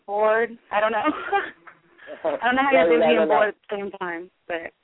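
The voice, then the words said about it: Raspy voice from a cold. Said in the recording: “I have a cold, so my voice is really raspy ... It's kind of sexy.”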